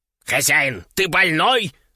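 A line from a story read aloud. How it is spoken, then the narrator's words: Yelling. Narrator (Russian): заорал Кеша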